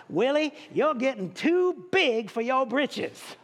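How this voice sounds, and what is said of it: Imitated South Carolina accent. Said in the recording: “that South Carolina accent”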